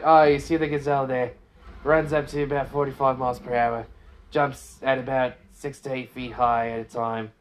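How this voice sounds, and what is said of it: Put-on Australian accent. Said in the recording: “I can don an Australian accent.”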